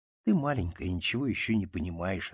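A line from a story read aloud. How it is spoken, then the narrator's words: Plain. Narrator (Russian): ответила мама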